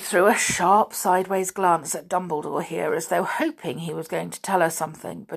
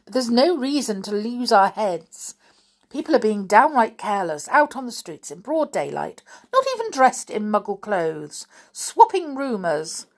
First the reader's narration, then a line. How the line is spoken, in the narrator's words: said Professor McGonagall, irritably